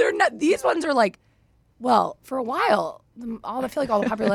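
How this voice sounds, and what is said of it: Usual voice. Nothing is said of it.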